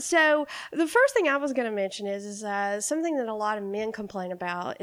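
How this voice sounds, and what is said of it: Congested voice with a cold. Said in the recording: “I have a cold”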